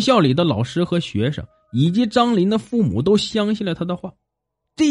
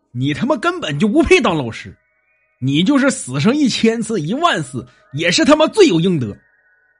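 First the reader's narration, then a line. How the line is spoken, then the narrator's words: Furious roar. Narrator (Chinese): 狗蛋怒不能自持，直吼道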